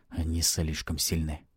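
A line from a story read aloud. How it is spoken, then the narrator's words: Despairing whisper. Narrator (Russian): прошептал Алексис в отчаянии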